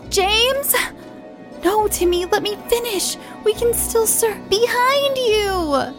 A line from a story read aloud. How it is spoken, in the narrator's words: they shouted